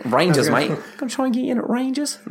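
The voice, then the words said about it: Put-on Australian accent. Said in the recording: “That's Australian. ... That's my Australian accent.”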